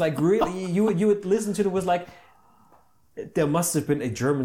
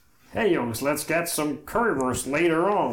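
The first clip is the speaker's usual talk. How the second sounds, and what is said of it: Exaggerated American accent. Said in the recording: “it was just like the worst ever German with a heavy, heavy American ... Do an American accent ... all these accents were like that. It was like the most exaggerated. It was really, really bad.”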